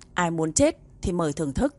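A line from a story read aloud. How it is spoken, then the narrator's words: Cold scoff. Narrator (Vietnamese): Phong Vân Uy Lam thì hừ một tiếng lạnh lùng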